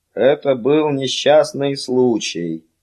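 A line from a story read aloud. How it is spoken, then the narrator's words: Flat, impassive tone. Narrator (Russian): сказал Феллон бесстрастным тоном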